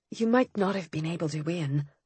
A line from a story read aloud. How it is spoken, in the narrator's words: I said gently